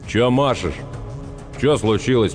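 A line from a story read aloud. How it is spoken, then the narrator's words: Grumbling. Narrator (Russian): проворчал он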